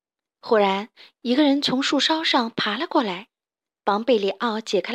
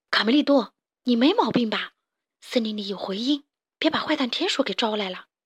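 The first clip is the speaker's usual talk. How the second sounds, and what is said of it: Quiet, hushed speech. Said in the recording (Chinese): “贝里奥小声地说”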